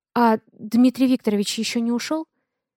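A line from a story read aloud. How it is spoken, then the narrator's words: Timid question. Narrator (Russian): Робко спрашиваю я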